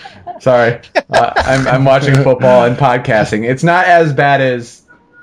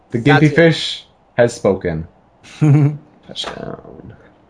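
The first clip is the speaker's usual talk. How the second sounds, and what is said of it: Soft newscaster voice. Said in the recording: “soft newscaster voice”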